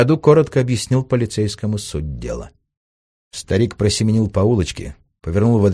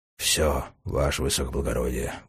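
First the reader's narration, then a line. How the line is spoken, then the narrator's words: Breathed into ear. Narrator (Russian): выдохнул чиновник в ухо небаба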